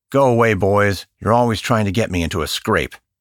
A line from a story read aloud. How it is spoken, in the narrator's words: He gruffly replied